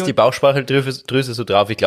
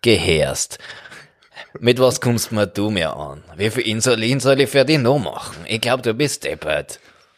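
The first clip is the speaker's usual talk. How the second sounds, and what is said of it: Put-on Austrian German dialect. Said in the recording (German): “die hat so einen Schweizer Dialekt oder einen Österreicher Dialekt, oder? Ich glaube, die Bauchspeicheldrüse ist so ein Österreicher.”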